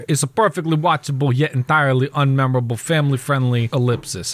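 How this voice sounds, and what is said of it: Italian-American accent, not from Italy. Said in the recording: “Give me your best Italian accent for it. ... I meant like Italian, like from Italy, not Italian from Saginaw, New Jersey.”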